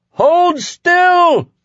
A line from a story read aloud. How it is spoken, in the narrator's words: Flag cried at the top of his voice